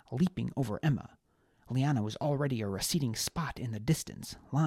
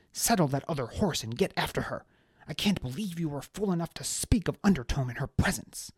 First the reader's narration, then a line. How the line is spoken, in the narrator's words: snapped Maeve